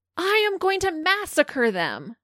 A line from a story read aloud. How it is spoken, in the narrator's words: Christine reached her breaking point and hollered out to her sister